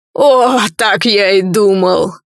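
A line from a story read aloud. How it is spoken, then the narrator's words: Chuckling demon. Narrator (Russian): хохотнул демон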